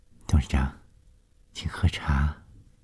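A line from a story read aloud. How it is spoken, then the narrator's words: Soft, shaken. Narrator (Chinese): 冷小丽被眼前发生的事惊得心颤颤的，柔声地说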